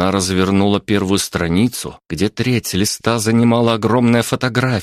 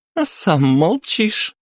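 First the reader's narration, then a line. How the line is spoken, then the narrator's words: Giggling princess. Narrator (Russian): хихикнула принцесса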